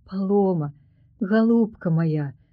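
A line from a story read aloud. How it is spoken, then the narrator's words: Plain. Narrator (Belarusian): сказала Сафія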